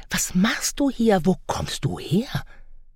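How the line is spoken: Frightened whisper. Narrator (German): flüsterte, erschrocken

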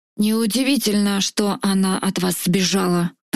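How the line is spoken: Tigress growling. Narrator (Russian): продолжал рычать тигра

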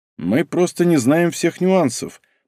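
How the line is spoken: Thoughtful. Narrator (Russian): произнес задумчиво

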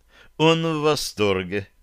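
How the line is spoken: Hasty. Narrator (Russian): поспешила перевести Таша

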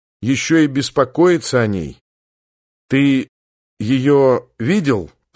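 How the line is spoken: Halting, stumbling question. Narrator (Russian): запинаясь после каждого слова, спросил Коля

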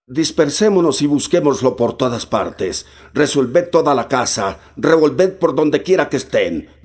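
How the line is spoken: Blind man shouting. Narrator (Spanish): gritó el ciego

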